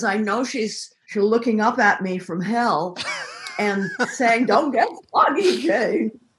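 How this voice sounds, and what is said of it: Imitates another person's voice. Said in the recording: “a Katharine Hepburn impression ... It was a very good impression. That was a great impression.”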